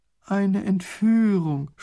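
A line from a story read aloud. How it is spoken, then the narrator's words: Groaning. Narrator (German): stöhnt Raffini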